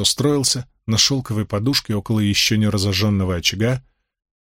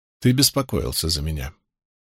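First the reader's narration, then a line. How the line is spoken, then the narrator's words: Even, level voice. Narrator (Russian): произнесла Авиенда ровным голосом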